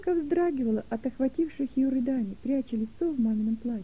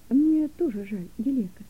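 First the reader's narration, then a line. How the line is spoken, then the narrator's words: Soft gentle reply. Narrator (Russian): мягко ответила мама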